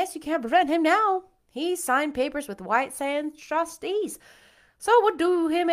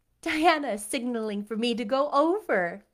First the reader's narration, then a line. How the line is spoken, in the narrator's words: laughed Anne